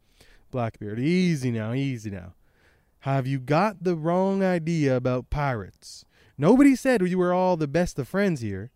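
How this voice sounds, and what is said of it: Character voice with a twang. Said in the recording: “I don't know why I'm doing this like twang, but I think it's because the 4Kids dub.”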